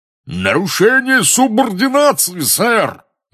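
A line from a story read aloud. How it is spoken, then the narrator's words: Man roaring. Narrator (Russian): взревел дородный красноносый волшебник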